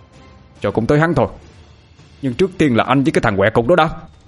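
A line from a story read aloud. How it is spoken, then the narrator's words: Snapping irritably. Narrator (Vietnamese): Tôi gắt lại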